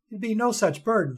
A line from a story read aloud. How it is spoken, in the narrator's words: she stammered in defense